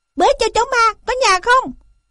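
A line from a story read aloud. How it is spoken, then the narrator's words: Shouting. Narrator (Vietnamese): hắn đã thét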